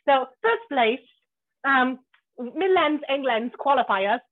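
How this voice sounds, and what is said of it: Bad fake English accent. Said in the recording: “Cue fake English accent time ... So bad!”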